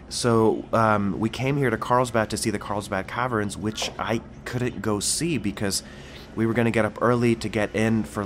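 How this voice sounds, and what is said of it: Sick voice with a cold. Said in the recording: “as you can tell, I'm sick, so I have a cold,”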